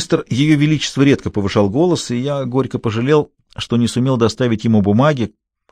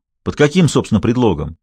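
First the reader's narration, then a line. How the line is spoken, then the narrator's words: Angry. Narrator (Russian): сердито обернулся к зятю Олсингем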